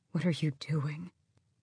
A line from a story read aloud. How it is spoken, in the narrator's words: the old male quietly said